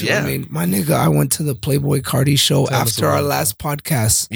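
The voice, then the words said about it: Hoarse, strained voice. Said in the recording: “My voice is hoarse. ... he still doesn't have his voice.”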